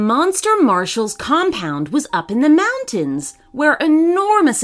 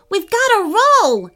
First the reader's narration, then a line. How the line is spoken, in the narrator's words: Harrison shouted